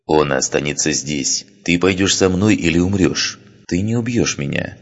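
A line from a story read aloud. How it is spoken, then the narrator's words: Calm and confident. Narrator (Russian): спокойно и уверенно произнесла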